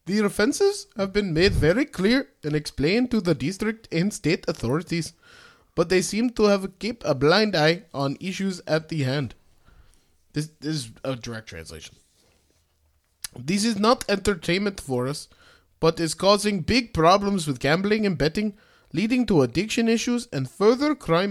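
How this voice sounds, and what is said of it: Put-on Indian accent. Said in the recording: “I don't want to do an Indian accent. I feel like I'm going to fuck it up.”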